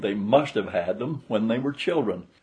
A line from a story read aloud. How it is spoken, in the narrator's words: exclaimed